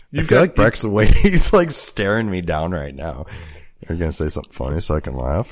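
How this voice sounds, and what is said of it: Sick, deep radio-like voice. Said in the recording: “I'm permanently sick because of my allergies ... I got the extra sexy radio voice going on here now ... it's a good timbre”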